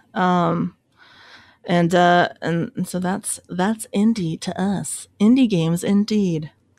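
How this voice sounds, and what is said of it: Mellow public radio announcer voice. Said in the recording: “That's my NPR voice.”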